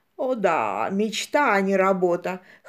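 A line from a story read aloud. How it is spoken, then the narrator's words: Wry snort. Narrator (Russian): хмыкнул Джулиан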